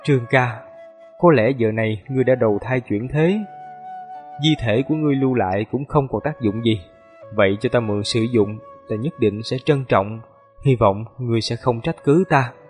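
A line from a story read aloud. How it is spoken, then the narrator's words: Soft murmur to himself. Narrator (Vietnamese): Hàn Lập ngửa đầu lên trời, khe khẽ tự nói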